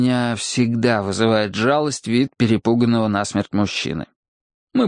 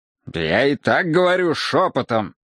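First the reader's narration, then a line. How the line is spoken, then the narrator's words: Irritated reply. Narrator (Russian): раздраженно ответил я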